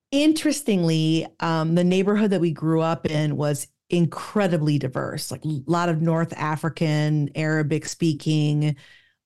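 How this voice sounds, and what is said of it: Chicago accent. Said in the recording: “You sound like you're from Chicago ... We have an accent”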